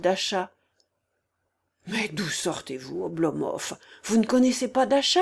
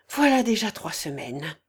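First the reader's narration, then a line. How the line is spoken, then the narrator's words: Deep sigh. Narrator (French): fit Volkov avec un profond soupir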